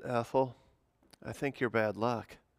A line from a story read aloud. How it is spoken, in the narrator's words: The man sighed and said